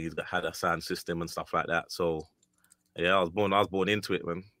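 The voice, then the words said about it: English Jamaican accent. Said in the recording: “I hear a Jamaican accent. ... I can hear that, the English Jamaican accent. Mm-hmm. Like, it's clear. I can hear it.”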